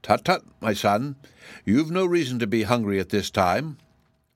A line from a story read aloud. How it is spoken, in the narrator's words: exclaimed all the dragons in a reproachful chorus